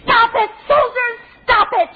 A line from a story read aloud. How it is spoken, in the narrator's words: she screamed